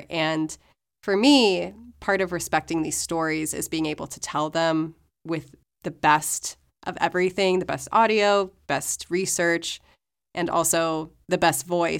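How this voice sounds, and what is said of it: Slightly sick-sounding voice. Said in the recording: “You can probably tell from my voice, I'm still a little sick”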